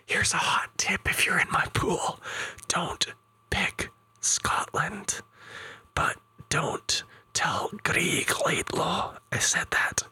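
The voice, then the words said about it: Whispering. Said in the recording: “stop whispering”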